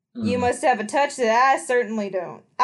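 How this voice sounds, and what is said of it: Different character's voice. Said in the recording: “I did my Leslie voice. ... I did Leslie again!”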